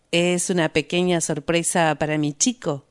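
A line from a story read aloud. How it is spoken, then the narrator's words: Plain. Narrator (Spanish): dijo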